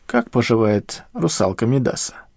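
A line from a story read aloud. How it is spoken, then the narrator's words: Wry snort. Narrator (Russian): Рита хмыкнула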